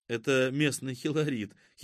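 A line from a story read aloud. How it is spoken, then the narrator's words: Giggling. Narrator (Russian): хихикнула Катя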